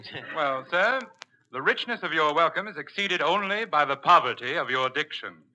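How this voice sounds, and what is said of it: Slight English accent. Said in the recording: “you speak with a slight English brogue”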